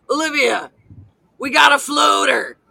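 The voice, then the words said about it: Imitates another person's voice. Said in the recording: “my impression of Meloni”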